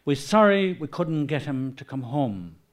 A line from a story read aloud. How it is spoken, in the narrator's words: Moran said